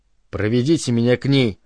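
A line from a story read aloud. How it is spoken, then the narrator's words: Strained calm request. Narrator (Russian): попросил дикарь, силясь говорить спокойно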